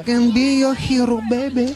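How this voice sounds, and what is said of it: Singing in a Spanish accent. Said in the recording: “I just sing with a Spanish accent”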